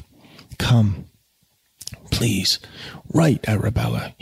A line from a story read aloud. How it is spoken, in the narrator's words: he pleaded